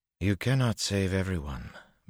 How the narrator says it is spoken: Berylaine said calmly

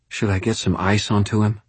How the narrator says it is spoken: Molly asked anxiously

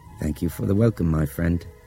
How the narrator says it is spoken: Nick said softly

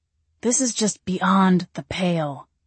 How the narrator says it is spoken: Gabriel grumbled

